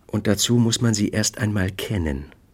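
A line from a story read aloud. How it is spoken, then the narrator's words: Gentle addition. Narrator (German): fügte sanft hinzu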